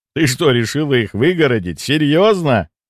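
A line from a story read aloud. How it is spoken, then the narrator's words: Laughing interruption. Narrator (Russian): Рассмеявшись, перебил я девушку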